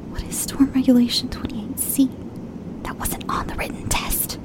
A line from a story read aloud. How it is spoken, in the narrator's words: Vicky whispered